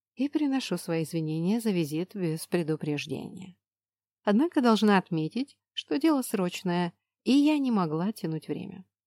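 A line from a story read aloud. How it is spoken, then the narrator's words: Calm reply. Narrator (Russian): спокойно отозвалась храмовница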